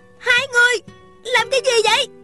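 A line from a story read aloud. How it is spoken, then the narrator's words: Angry shout. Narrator (Vietnamese): Thanh Thanh giận dữ hét lên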